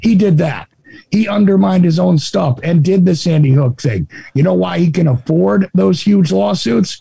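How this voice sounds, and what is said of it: Raspy voice, New Jersey accent. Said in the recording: “my voice is a little raspy ... that's just because I just woke up. Raspy ... they don't recognize the difference in a Jersey and a Texas accent ... clearly, I'm from Jersey”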